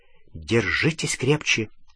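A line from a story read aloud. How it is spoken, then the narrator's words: Whisper. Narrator (Russian): Она прошептала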